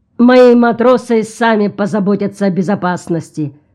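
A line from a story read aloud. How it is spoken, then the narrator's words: Rough declaration. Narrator (Russian): грубо заявил капитан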